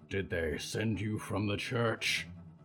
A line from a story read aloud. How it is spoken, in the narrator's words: growled